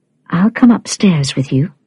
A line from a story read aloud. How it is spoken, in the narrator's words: Fenella said gently